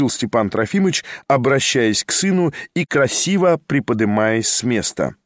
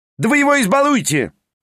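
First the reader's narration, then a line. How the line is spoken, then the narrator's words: Shouted. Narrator (Russian): прокричал Петр Степанович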